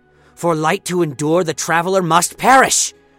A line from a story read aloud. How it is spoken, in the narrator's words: he shouted